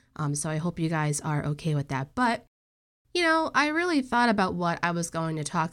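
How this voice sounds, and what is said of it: Congested, nasal voice. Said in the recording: “as you can probably tell by my voice, I am under the weather ... my voice this episode sounds really congested and nasally and not that great”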